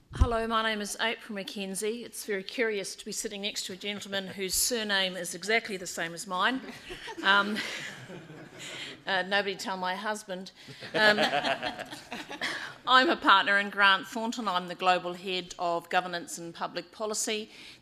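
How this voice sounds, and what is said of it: New Zealand accent. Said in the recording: “This is a New Zealand accent, but I am based, not a South African accent ... A New Zealand accent”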